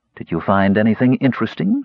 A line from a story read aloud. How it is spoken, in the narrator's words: she asked